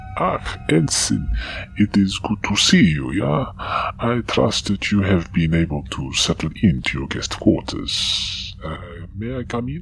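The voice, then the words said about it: Austrian-sounding accent. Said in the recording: “quite the accent you have there ... that kind of accent. Are you from Austria?”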